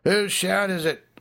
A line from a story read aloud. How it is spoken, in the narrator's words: rose impatiently from parched throats